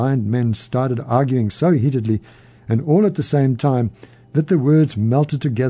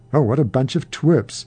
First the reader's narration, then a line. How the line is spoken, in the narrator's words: sneered the seventh blind man